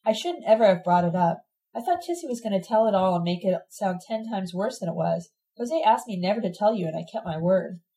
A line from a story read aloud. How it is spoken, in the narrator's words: Ted telling her sadly